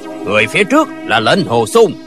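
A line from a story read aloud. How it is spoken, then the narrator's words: Loud voice from behind. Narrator (Vietnamese): có tiếng người lớn tiếng nói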